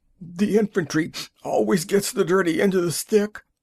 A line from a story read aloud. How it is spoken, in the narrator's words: he gasped